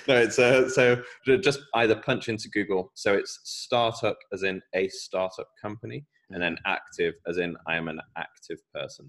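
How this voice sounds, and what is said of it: British accent. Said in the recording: “with my British accent”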